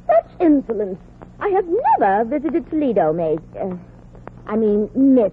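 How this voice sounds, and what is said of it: Strained affected put-on accent. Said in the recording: “Don't strain your accent, honey. I won't give you away.”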